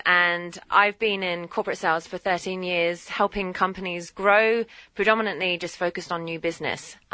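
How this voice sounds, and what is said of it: British London accent. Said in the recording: “as you can tell by the accent, I'm not originally from here ... I am from the legendary place called London”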